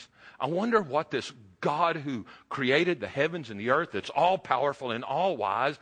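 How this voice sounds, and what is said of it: Texas accent. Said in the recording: “I'm a Texas boy, if you can't tell from the accent.”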